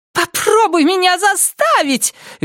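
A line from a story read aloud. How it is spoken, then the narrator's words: Shrill shout. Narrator (Russian): визгливо крикнула она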